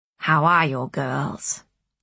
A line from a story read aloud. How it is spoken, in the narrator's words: asked Rachel